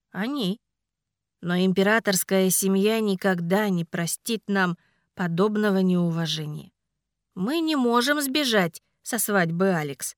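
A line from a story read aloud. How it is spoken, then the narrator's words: Sighing. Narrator (Russian): вздохнул Ричард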